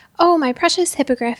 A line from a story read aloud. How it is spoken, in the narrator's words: he cried